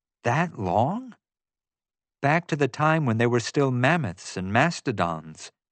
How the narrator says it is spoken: Jasmine said

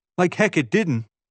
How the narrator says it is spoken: Evan exclaimed

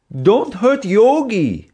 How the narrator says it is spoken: yelled the German father

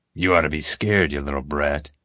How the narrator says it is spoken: growled

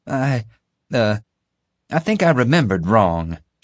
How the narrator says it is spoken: she stammered

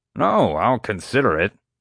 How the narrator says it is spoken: Doc grumbled

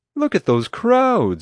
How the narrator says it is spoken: exclaimed

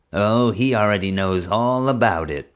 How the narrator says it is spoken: chuckled

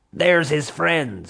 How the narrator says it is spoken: she shouted to her underlings

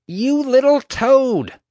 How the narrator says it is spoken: she snarled

